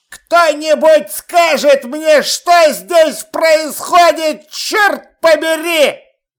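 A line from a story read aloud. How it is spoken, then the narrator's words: Yelled. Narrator (Russian): Заорал Чудакули в окружающую пустоту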